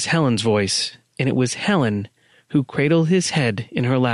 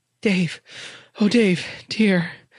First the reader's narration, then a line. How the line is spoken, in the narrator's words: Someone cried out